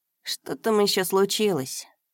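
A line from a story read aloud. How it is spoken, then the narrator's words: Grumbling older brother. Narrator (Russian): проворчал старший брат Димка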